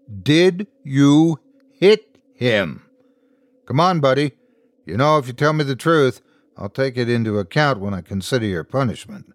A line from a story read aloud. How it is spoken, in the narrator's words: raised my voice